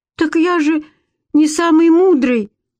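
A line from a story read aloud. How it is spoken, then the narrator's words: Desperate exclamation. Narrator (Russian): воскликнул в отчаянности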